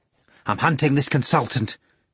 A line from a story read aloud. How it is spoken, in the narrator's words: replied Ivan Nikolaevich, glancing round anxiously